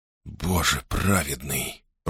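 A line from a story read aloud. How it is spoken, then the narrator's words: Whisper. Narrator (Russian): прошептал Гордон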